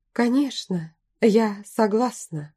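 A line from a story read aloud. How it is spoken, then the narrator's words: Strained, forced out. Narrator (Russian): я смогла выдавить из себя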